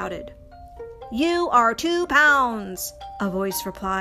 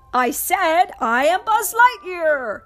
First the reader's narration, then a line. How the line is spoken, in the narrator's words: Buzz shouted again